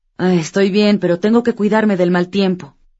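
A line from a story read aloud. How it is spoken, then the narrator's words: Deep sigh, female voice. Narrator (Spanish): suspirando profundamente, ella le dijo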